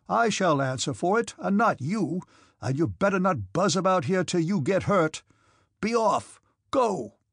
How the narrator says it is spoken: he shouted at the officers

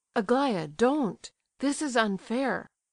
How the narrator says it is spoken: cried the prince, deeply distressed

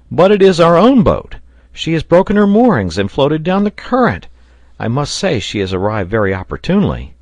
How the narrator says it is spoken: the sailor exclaimed

